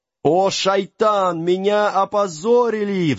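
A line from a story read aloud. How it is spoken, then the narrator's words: Howling. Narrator (Russian): взвыл джинн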